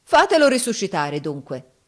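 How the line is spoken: Defiant yell. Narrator (Italian): urlò Giovanni in tuono di sfida

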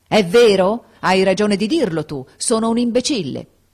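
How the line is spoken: Shouted. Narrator (Italian): gridò

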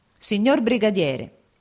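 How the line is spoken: Exclaimed. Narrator (Italian): esclamò

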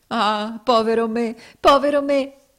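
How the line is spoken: Exclaiming. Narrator (Italian): esclamò

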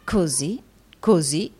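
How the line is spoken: Weary murmur. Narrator (Italian): mormorò abbattendosi nella poltrona

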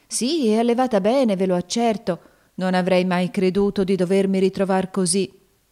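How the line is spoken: Woman sighing reply. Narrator (Italian): rispose sospirando la donna

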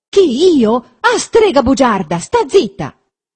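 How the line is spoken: Angry shout. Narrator (Italian): gridò Renzo

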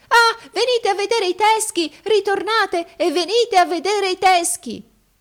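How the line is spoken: Shouting. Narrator (Italian): lo udii gridare

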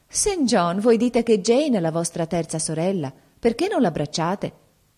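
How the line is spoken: Cheerful exclamation. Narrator (Italian): Diana, che era allegra quella sera, esclamò

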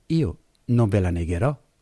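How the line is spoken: Plain. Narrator (Italian): quegli rispose

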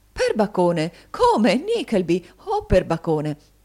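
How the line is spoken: Gentleman's warm exclamations. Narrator (Italian): aver cacciato queste esclamazioni, il signore

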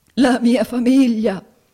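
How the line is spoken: Sobbing. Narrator (Italian): singhiozzò il signor Squeers

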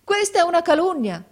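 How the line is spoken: Exclaimed. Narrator (Italian): esclamò mio fratello

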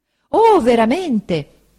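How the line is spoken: Exclaimed. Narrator (Italian): esclamò Uriah

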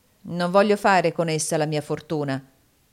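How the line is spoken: Dry tone. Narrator (Italian): disse Shelby in tono asciutto

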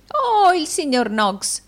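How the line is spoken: Exclamation. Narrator (Italian): esclamò Arturo Gride

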